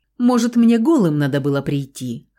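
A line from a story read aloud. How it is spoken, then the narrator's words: Laughing man. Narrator (Russian): хохотнул блондин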